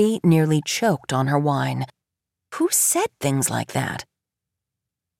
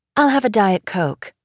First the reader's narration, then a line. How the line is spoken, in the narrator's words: Pamela said